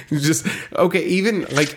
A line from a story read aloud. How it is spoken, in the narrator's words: I laughed